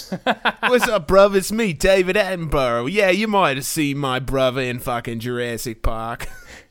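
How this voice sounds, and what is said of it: English accent drifting into Australian. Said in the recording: “All of my English accents eventually going to Australian. ... All my English accents just constantly doing Australian.”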